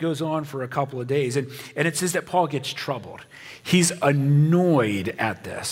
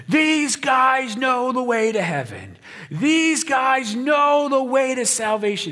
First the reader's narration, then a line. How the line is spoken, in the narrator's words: she's just yelling